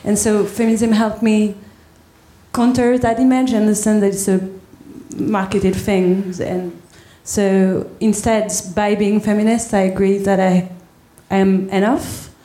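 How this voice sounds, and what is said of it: French accent. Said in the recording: “never apologise for your accent, because it's beautiful, it's charming. Is it French? Yes, absolutely.”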